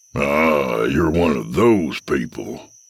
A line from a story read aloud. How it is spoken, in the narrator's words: Jack rumbled